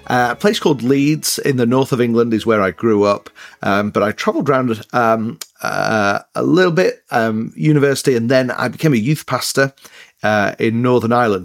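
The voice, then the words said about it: Mixed northern English accent. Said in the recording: “I have an accent. But yeah, it's an English accent... it's northern, but it's a bit mixed up... I'm trying to keep my English accent”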